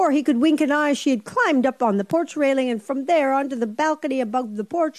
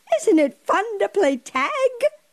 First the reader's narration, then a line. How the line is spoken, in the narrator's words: cried Pippi